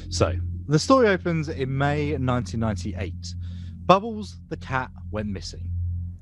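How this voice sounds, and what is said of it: Spooky storytelling voice. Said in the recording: “do my best spooky voice.”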